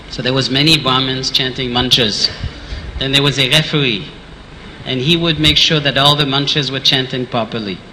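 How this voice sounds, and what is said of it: French-accented English. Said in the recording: “because of my French accent”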